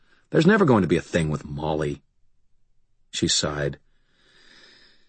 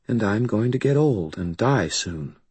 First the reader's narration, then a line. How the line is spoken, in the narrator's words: Karen said very, very quietly